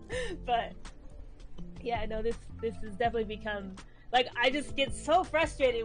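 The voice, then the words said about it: Emotional voice. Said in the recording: “I'm getting emotional”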